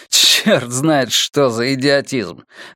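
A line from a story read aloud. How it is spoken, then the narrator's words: Laughing. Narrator (Russian): рассмеялся я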